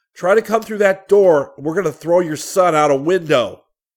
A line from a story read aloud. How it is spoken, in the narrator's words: He yelled back